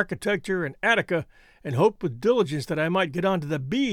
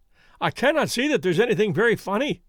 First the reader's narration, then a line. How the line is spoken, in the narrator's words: cried our client, flushing up